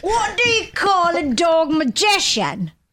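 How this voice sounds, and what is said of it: Put-on Cockney accent. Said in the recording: “Is that your Cockney accent? ... Okay, Brad Pitt in Snatch.”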